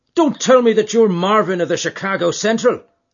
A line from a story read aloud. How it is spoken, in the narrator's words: he cried